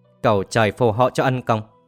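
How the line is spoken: Dreamy muttering. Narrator (Vietnamese): Yến Lập thơ thẩn lẩm bẩm nói

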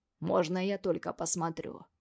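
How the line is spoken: Insinuating, ingratiating tone. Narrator (Russian): Говорит он вкрадчиво

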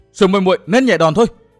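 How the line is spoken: Alarmed cry. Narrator (Vietnamese): Lý Yến Hồng cả kinh vội la lên

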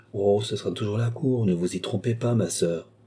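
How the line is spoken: Said sadly. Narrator (French): dit Philippe tristement

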